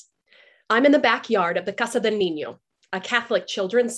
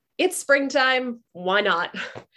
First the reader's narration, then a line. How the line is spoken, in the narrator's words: I laugh